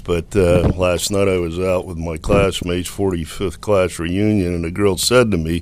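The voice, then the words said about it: Deep radio voice. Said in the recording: “that deep voice of yours ... You have a radio voice.”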